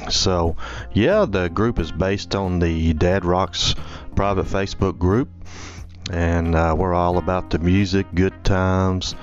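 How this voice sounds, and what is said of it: Upper South Southern American accent. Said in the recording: “my Upper South Southern accent”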